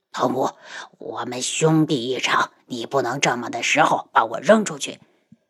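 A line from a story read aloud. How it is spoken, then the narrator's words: Frightened, low voice. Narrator (Chinese): 安国公害怕的低声道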